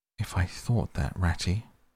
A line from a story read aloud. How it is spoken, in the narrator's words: murmured Toad more feebly than ever